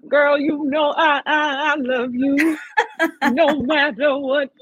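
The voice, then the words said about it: Imitates a singer's voice. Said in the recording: “I love the impersonation. That was so good. That was really good.”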